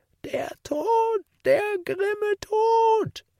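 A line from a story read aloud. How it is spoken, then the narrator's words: Old woman's mad scream. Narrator (German): schrie die Alte im Wahnsinn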